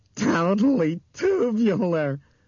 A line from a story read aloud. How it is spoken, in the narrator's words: Bethany yelled happily